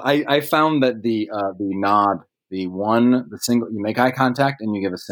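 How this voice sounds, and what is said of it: Usual voice. Nothing is said of it.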